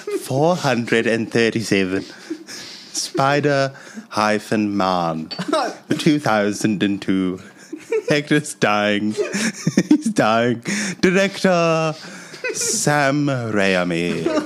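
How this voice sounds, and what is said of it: Put-on British accent. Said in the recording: “Hit us with that British guy voice. ... The accent has gotten so much better.”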